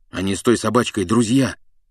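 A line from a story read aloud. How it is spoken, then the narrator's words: Grumbled mutter. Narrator (Russian): буркнул Гарри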